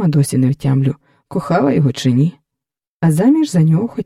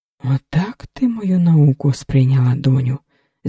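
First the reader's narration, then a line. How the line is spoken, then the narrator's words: Sigh. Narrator (Ukrainian): зітхнула Лоська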